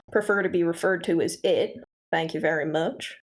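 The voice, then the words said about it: Put-on Southern accent. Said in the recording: “I chose this accent myself... do you have a problem with Southern accents? You have a problem with me choosing one?”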